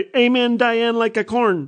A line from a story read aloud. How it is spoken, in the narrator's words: she said very loudly